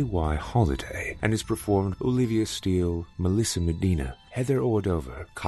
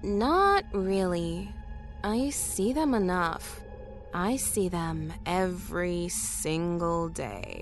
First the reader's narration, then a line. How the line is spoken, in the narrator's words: Tanya said slowly, without even looking up